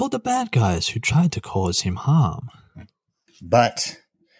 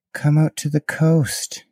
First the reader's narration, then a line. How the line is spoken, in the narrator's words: he sighed